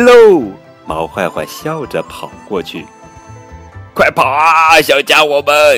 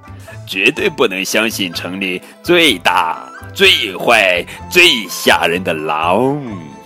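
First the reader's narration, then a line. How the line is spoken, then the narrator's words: Laughing. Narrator (Chinese): 毛坏坏笑着说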